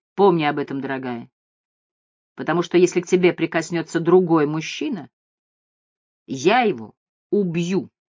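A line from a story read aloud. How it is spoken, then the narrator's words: Serious tone. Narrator (Russian): серьезным тоном сказал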